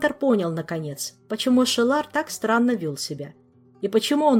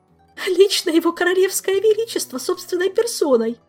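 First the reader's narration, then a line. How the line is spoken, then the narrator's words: Sobbing. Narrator (Russian): прорыдала Ольга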